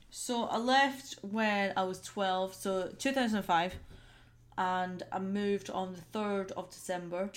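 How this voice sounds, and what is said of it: Scottish accent. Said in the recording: “Any other facts about Scotland? When did you leave Scotland? Because you still got the accent.”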